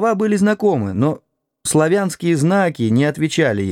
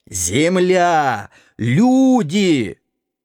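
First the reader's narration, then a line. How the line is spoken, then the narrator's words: Furious hoarse shouting. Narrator (Russian): приходя в ярость, хрипел и кричал в ухо мне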